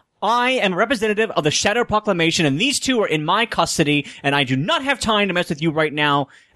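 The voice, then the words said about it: Commanding, authoritative voice. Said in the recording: “I'm gonna do a voice of authority”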